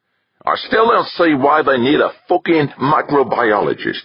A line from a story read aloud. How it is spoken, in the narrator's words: grumbled